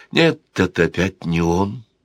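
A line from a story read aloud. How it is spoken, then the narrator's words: Sad. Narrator (Russian): грустно произнесла Камилла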